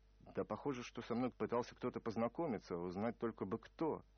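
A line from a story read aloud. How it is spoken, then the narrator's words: Grumbled. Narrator (Russian): буркнул я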